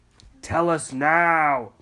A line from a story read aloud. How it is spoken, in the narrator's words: the crocs all howled